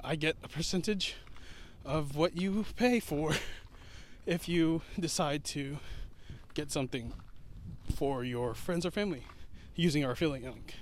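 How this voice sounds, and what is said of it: Out of breath speaking. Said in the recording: “I'm out of breath.”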